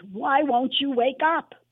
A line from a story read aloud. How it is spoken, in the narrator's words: the voice in my head screamed